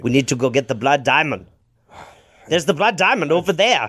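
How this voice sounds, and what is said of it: Bad put-on South African accent. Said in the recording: “the bad Leonardo DiCaprio accent from Blood Diamond ... It also has a little bit of Christopher Walken to it.”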